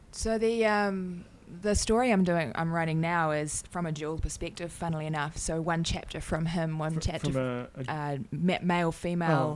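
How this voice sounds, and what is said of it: Australian accent. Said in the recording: “My accent, sorry ... especially Australians”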